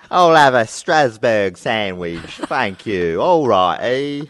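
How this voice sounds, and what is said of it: Weird Dick Van Dyke impression voice. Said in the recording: “he stays in character ... So I thought that was Dick Van Dyke, but clearly not. That's a weird voice.”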